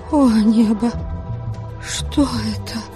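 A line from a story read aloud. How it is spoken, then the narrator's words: Tearful whisper. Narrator (Russian): Прошептала я, чуть не плача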